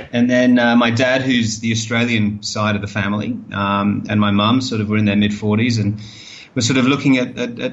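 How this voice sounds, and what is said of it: London speaker with strong Australian tinge. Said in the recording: “Contrary to my accent ... Because it hints a little bit at Australia ... I think there's more than a little bit ... she thinks there's far too much Australian”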